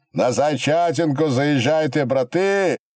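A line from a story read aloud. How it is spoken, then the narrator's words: Group shouting. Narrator (Russian): кричали хохлачи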